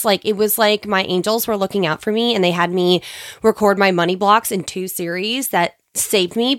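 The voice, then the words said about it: Congested, sick-sounding voice. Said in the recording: “if my voice sounds a little different ... I'm still congested”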